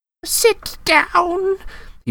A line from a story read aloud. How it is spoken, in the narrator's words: he wailed